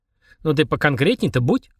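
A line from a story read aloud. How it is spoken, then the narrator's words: Skeptical snort. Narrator (Russian): хмыкнул Денис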